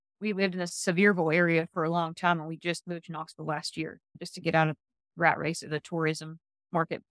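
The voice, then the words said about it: Noticeable regional accent. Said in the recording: “I'm hearing the accent”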